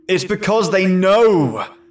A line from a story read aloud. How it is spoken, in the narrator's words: Stephen exclaimed